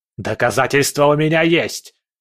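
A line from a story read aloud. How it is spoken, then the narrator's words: Furious yell. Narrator (Russian): заорал князь гневом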